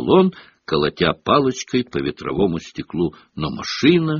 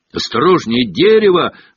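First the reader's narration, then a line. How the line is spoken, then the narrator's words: Yelled. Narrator (Russian): завопил Гарри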